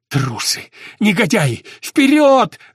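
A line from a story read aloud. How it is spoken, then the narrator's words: Yelling even louder. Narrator (Russian): заорал пуще прежнего младший лейтенант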